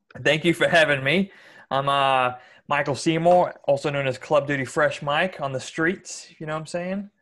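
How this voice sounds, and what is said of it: Hybrid Australian-American accent. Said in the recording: “my accent's like a hybrid Australia-America. The closest accent to it's really a Boston accent, but even there it doesn't match”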